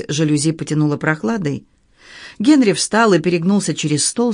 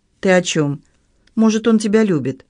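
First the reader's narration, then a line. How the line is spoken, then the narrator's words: Sighed. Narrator (Russian): Ребекка вздохнула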